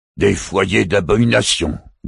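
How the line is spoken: Growl. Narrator (French): gronda Rantiang

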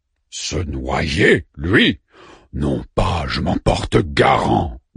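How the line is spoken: Growled. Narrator (French): gronda Orfu

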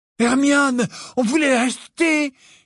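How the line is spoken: Exclaimed. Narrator (French): s'écria Ron

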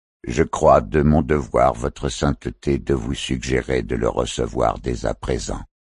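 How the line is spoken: Monotone declaration. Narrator (French): déclara le prélat d'une voix monocorde

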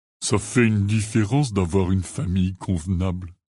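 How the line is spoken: Plain. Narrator (French): dit-il

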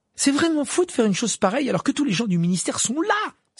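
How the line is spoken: Exclaiming. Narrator (French): s'exclama Hermione

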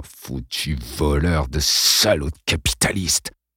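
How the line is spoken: Father muttering. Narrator (French): marmonna son père

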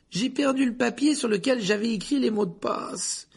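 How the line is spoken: Moaned. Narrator (French): gémit Neville

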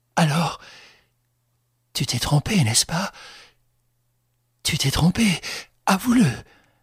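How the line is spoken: Desperate pleading. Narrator (French): Elle le suppliait de toute sa détresse

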